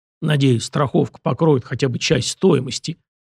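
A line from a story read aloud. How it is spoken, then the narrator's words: Pleased grumble. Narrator (Russian): проворчал Фома, но казался до нельзя довольным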